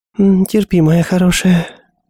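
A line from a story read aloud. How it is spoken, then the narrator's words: Purring. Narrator (Russian): промурлыкала Джоди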